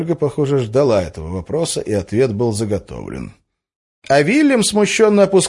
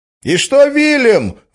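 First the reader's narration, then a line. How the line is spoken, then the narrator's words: Shout from audience. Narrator (Russian): выкрикнул кто-то из зала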